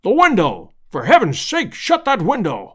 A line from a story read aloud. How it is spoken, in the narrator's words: roared the professor, in an agony of apprehension